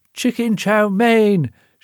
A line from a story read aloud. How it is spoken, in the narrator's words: shouted at the top of her voice